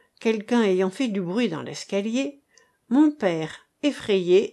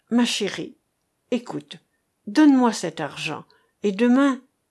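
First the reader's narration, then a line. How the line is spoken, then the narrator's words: Trembling voice. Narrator (French): dit-il d'une voix tremblante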